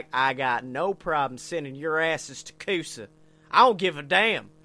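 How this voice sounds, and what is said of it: Put-on heavy Southern US accent. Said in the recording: “this boy had the most southern accent.”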